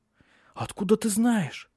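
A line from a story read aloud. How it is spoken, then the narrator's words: Frightened exclamation. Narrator (Russian): Испуганно воскликнула она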